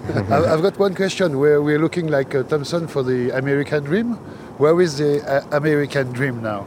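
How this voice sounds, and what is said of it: French accent in English. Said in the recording (French): “France, from Paris. ... Paris. Yeah, that's, yeah. That makes sense, your accent”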